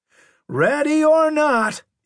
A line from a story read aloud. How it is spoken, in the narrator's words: he hollered